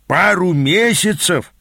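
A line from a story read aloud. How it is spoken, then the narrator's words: Moaning. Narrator (Russian): простонал мой наставник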